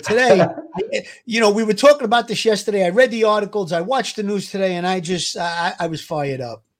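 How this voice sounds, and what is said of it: Brooklyn accent. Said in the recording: “He's got that wonderful Brooklyn accent.”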